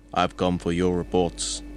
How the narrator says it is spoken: Dan says in an Austrian accent

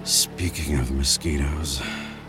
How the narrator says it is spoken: Easton muttered under his breath

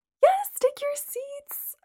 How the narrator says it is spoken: Amanda squealed

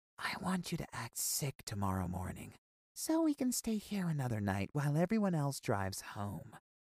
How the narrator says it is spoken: whispered

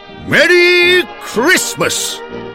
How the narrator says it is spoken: He yelled

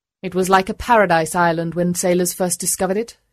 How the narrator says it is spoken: she said

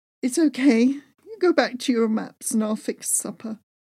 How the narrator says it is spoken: whimpered

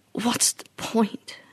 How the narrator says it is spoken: She croaked back

